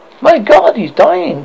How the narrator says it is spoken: cried Malthouse Lee distractedly

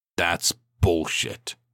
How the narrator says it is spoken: he spat

